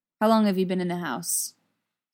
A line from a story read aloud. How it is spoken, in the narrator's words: he asks